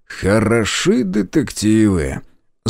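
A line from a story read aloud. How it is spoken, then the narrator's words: Angry drawl. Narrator (Russian): Зло протянул я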